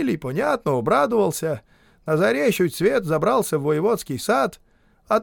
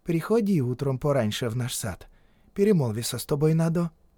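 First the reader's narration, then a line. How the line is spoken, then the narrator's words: Quiet, cautious. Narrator (Russian): говорит ему из окошка тихонько, будто сторожится, чтоб други не услышали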